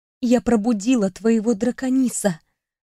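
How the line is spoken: Mouthed whisper. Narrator (Russian): прошептала я одними губами

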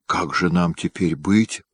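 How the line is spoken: Whispered. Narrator (Russian): прошептал Челеднин

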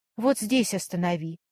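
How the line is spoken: Quiet request. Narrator (Russian): попросила тихо

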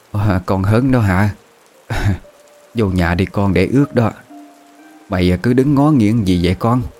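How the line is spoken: Hoarse old woman. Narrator (Vietnamese): bà Cẩm cất cái giọng khàn khàn bảo

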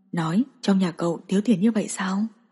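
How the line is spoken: Quiet voice. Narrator (Vietnamese): Dương Quang nhỏ giọng nói

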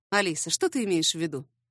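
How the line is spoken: Calm and even. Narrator (Russian): Его голос звучал спокойно и ровно

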